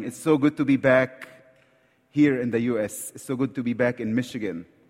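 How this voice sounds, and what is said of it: Egyptian-accented English. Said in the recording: “I hope you understand my accent ... I talk like Egyptian, so English is second language to me”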